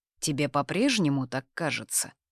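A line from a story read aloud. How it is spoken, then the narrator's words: Dry. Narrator (Russian): сухо интересуется Конор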